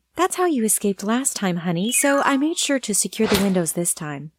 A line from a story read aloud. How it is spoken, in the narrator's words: Laura said sweetly